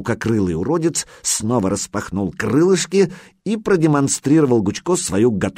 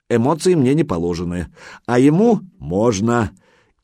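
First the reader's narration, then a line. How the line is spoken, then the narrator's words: Good-natured chuckle. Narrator (Russian): И добродушно хохотнул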